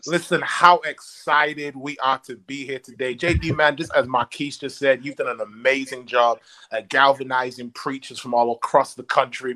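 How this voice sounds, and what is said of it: British accent. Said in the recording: “That British accent.”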